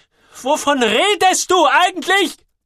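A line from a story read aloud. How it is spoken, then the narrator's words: Woman shouting again. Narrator (German): brüllt sie wieder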